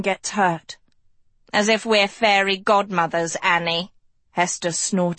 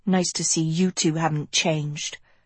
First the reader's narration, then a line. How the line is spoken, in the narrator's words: Agatha muttered